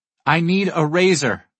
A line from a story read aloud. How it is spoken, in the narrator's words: she shouts